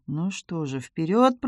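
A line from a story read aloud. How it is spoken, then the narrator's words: Muttered under breath. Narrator (Russian): пробормотал Томми себе под нос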